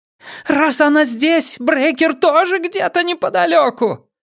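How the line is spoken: Yelling. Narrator (Russian): завопила она

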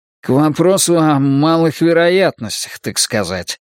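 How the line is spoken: Grumbling. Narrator (Russian): проворчал Шпиндель

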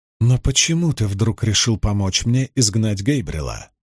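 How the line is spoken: Plain. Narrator (Russian): спросила Моргейс

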